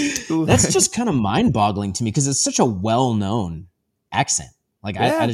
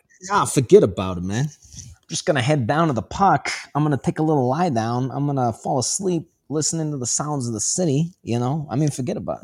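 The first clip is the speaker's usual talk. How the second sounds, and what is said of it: Exaggerated New York accent. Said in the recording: “the New York accent”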